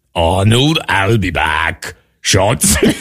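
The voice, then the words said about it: Weak Arnold Schwarzenegger accent impression. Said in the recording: “I would rate the effort like 10 out of 10 ... But the actual accent, I don't know that I would give it a high mark”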